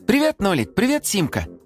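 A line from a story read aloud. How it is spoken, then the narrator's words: Joyful boy's exclamation. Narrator (Russian): радостно воскликнул мальчик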